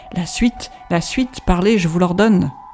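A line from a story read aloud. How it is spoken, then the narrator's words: Anguished cry. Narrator (French): s'écria Van Helsing d'une voix déchirante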